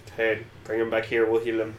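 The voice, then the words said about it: Put-on Native American accent. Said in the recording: “random accent? ... A Native American accent.”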